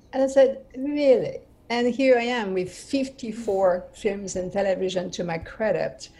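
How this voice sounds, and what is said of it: French accent. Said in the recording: “with a French mm-hmm. accent”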